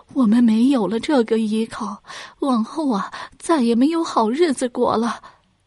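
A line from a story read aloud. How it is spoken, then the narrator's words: Crying while speaking. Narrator (Chinese): 双和一听就哭了，一边哭还一边对丈夫说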